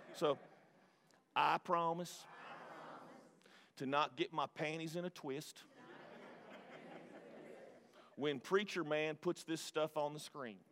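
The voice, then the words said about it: Put-on Mississippi Southern accent. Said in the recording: “This is how we would say it in Mississippi... I need a better southern accent”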